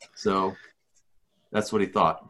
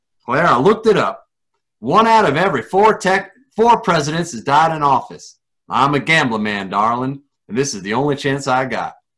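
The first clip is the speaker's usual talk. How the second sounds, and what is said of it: Weak put-on Texan accent. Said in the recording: “I do this with a Texan accent. I used to have a good Texan accent, but I forgot it.”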